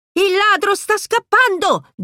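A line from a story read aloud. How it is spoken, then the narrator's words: Shouting. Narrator (Italian): grida Pizzi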